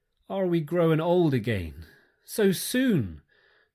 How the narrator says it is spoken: they cried dolefully

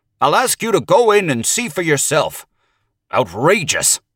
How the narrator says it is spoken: He snapped the last word out in almost one syllable

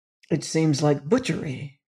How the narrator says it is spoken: said evenly

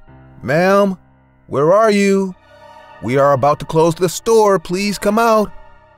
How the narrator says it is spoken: called out

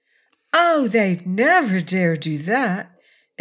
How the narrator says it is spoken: exclaimed Tiny Trot

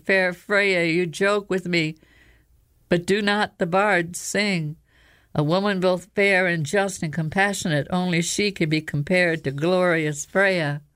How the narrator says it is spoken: The fox growled, then the growl became a choked cough, and the fox said

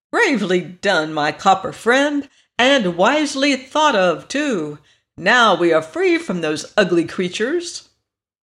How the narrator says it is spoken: The Yellow Hen gave a cackle of delight, she said

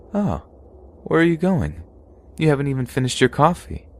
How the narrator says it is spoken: said in a calm voice

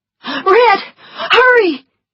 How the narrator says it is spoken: she shouted

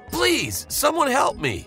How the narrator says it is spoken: shouted

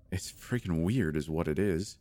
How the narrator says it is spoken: Dave mumbled incredulously

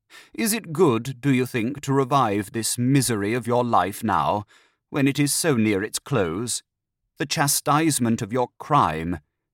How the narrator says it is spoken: he added solemnly

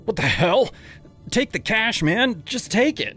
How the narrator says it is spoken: shouted, my heart pounding like a drum in my ears

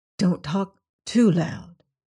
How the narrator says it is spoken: said Antony in a lower voice

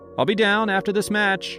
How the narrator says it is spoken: I yelled back, more out of habit than anything else

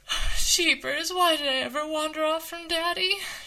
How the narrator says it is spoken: moaned

